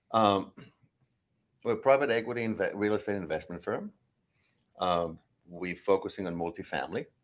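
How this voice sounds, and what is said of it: Israeli accent with American twang. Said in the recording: “accent that you're not American, that you're Israeli ... You get a little American twang there”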